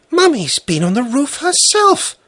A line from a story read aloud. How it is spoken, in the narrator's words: Svetlana squealed